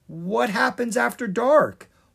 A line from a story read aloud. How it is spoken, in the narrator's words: Lucas asked nervously